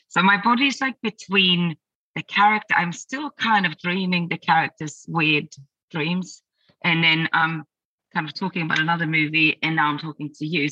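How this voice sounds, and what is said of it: Hoarse, slightly broken voice. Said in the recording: “my voice is a bit broken”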